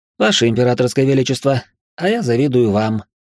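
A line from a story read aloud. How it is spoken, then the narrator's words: Snort. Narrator (Russian): хмыкнул я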